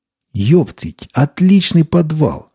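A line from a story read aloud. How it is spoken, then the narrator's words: Joyful looter. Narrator (Russian): радостно сказал один из мародеров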